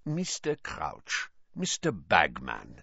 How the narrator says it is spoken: said Karkaroff, his voice unctuous once more

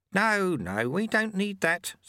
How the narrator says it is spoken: said Lutse kindly

